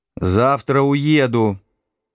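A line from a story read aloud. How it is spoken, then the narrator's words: Booming voice from another room. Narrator (Russian): в комнате матери прогудел ее голос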